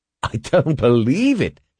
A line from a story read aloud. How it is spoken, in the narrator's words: he exclaimed